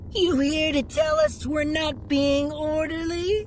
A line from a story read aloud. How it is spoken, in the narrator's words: He said in a mocking voice